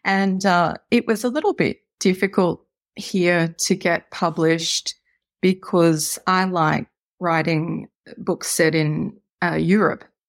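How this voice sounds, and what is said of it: Australian accent. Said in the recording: “as you may tell from my accent, I live in Australia”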